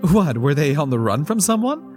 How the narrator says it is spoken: Paula laughed

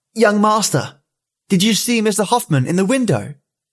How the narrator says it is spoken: he called out

